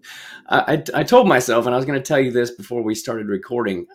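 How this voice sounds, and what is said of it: Rough, damaged-sounding voice. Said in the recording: “Sorry about my voice, everybody. It's a little, it's a little fucked up.”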